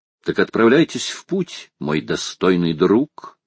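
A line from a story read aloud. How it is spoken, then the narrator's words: Plain. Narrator (Russian): сказал Паганель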